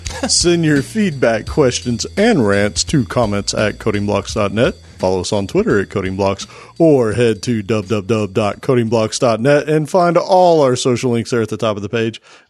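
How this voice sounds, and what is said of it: Put-on sports announcer voice. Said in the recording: “Did you just put on your announcer voice for all of that? ... It sounded like you totally changed. ... I'm auditioning for ESPN.”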